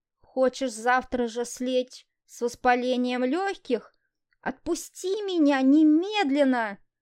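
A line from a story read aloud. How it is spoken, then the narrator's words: Indignant hiss. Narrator (Russian): Не менее возмущенно прошипела Лиза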